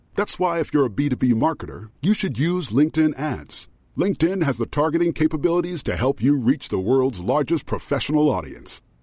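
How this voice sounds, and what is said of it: Very deep voice. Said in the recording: “As a person with a very deep voice, I'm hired all the time for advertising campaigns.”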